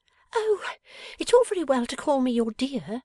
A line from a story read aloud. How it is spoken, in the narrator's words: said Bella with a pettish whimper